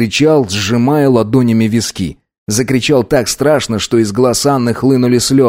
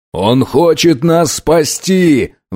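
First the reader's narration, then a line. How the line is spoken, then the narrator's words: Roaring reply. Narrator (Russian): взревел в ответ Линкольн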